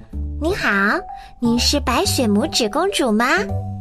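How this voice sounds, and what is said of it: Tiny, small voice. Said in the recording (Chinese): “用很细小的声音说”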